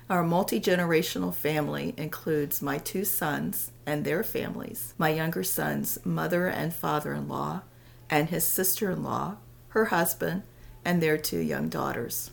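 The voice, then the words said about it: Lower, hoarse voice from a cold. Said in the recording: “My voice is a few octaves lower because I am recovering from a horrible summer cold.”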